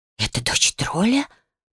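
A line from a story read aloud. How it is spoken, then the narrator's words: Astonished whispers from crowd. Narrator (Russian): прокатывались по залу изумленные шепотки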